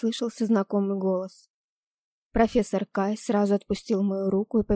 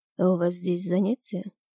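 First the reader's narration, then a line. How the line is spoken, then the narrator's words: Calm question. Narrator (Russian): спокойно спросил анимаг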